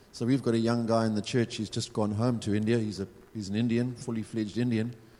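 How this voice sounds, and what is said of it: Zimbabwean accent, sounds South African. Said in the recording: “people will hear my accent and assume I'm South African, and I'm actually not. I'm Zimbabwean.”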